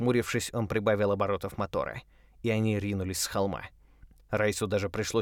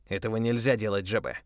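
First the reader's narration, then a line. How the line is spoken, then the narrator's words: Stern voice. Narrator (Russian): строго сказал Райс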